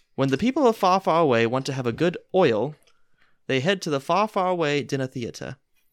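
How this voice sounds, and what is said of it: Put-on accent, not very good. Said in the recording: “Where did your accent go? I wanted it back ... I'm not sure if I can do the whole thing in an accent. I don't really think my accent is that good.”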